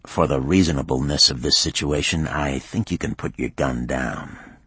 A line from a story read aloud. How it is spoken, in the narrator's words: Hinckley said quietly